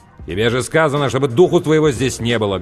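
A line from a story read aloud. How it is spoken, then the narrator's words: Barked. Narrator (Russian): гаркнул Сэм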